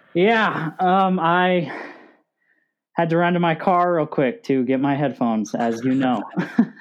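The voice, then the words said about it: Out of breath. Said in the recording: “You sound out of breath.”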